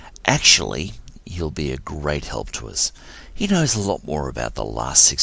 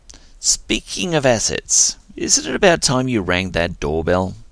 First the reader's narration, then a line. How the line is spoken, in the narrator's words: Syl chuckled